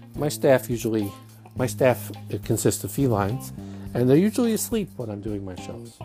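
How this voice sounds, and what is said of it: Brooklyn Jewish accent. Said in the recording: “my Brooklyn Jewish accent”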